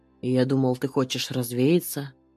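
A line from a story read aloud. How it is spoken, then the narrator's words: Calm answer. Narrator (Russian): отвечаю спокойно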